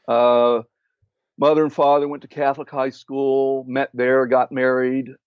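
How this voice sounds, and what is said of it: Pittsburgh twang accent. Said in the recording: “You have that Pittsburgh twang”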